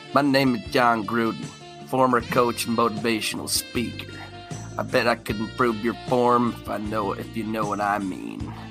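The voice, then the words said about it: Sensual Southern-accented impression. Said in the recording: “I'm going to try to talk like him in a sensual way ... I'm talking Southern here”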